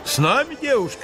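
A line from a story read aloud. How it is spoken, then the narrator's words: Shouted while running. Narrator (Russian): на бегу крикнул Лене один румяный, широколицый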